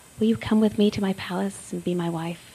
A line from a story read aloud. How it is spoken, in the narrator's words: he spoke tenderly and kindly to her and said